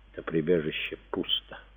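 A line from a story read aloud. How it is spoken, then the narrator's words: Whisper. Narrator (Russian): прошептала Беренис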